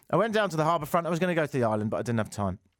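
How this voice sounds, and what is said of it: Foreign, likely British accent. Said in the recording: “The accent isn't as a result. I've been here for years, but that doesn't seem to be disappearing. ... as a foreigner living here”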